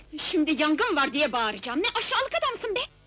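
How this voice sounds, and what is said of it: Shouting angrily. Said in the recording (Turkish): “Bağırma”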